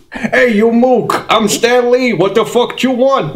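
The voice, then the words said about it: New York-style impression of another person. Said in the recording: “your Stan Lee impression ... I'm from New York, right?”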